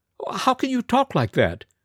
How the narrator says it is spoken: kept protesting feebly

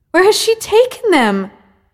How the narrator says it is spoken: Essel cried wildly

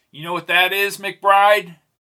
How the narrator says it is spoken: Jake shouted over the wind

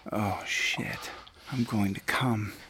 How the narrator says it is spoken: started grunting and saying

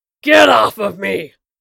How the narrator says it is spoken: bellowed with an intense fury his bony frame belied

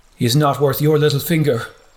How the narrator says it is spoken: exclaimed

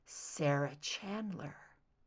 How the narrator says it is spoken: Mulder murmured

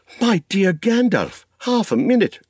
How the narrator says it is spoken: cried Frodo

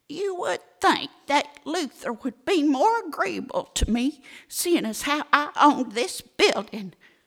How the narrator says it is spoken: said Petite Poteet indignantly

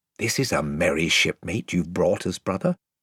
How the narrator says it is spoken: whispered Caspian to Edmund with a chuckle

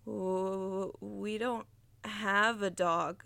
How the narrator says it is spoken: stammered Josh

